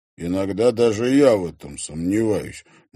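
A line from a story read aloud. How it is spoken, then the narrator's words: Gloomy pronouncement. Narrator (Russian): мрачно изрек Трофимов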